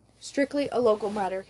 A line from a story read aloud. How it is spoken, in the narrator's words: he says